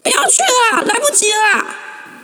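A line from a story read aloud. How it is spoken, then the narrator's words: Choked-up shout. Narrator (Chinese): 我莫名的哽咽，朝一楼回喊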